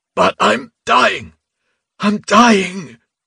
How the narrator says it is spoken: Reuben said hoarsely

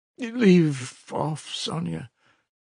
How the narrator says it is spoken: he answered wearily, almost with vexation

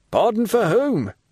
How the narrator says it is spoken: cried he

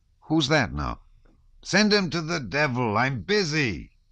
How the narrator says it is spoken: he shouted to Lavrushka

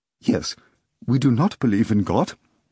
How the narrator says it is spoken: Berlioz said, smiling faintly at the tourist's anxiety

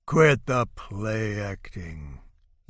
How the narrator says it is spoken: growls

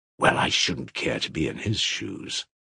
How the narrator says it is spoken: hissed Rakitin

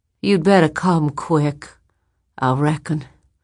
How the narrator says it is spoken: said in that soft, cold, peremptory voice

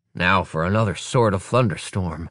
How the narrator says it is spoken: mutters

